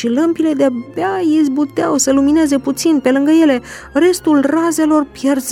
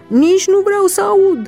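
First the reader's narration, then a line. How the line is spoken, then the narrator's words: Angry scream. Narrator (Romanian): a țipat faraon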